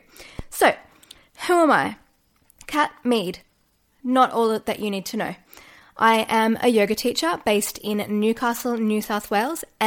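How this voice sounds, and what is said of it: Australian accent. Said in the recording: “if you can't tell from the accent, I am Australian.”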